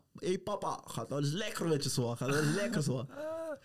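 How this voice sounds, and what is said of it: Put-on heavy Surinamese Dutch accent. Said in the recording (Dutch): “Met zo'n vet Surinaams accent er ook bij.”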